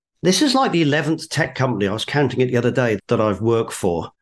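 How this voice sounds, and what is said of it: British English accent. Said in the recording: “I was an engineering grad out of a college called Bristol University in the UK, hence the accent.”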